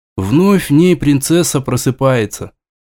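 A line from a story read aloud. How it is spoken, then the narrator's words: Sigh. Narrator (Russian): вздохнул Федор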